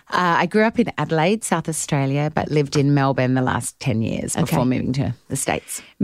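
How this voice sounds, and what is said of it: Australian accent. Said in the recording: “Just if you know by accent, it's Australia. It's not English. It's not British. It's Australia.”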